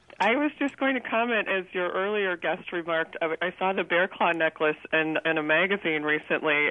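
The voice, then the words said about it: Congested, stuffy-sounding voice. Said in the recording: “I have a cold”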